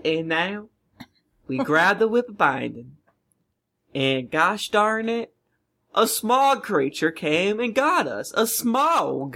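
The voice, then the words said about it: Put-on Southern US accent. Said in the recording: “Are you trying to do Southern accent? ... watched like one episode of King of the Hill, and this is what happens. ... That was really good.”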